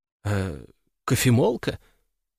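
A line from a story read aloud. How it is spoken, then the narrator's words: Uncertain suggestion. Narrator (Russian): неуверенно предположила она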